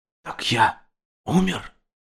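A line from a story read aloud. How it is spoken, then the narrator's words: Whisper. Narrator (Russian): прошептал Герстон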